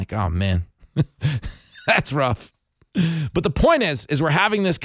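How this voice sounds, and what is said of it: Usual voice. Nothing is said of it.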